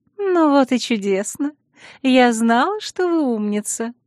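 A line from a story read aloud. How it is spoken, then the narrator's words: Pleased purring. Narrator (Russian): довольно промурлыкала Наэла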